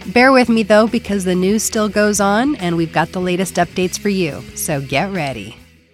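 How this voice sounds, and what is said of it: Voice sounds funky from cold. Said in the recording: “I do have a cold, so my voice sounds a little funky today”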